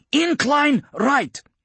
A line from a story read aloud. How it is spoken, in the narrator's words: Hanlon barked into her comlink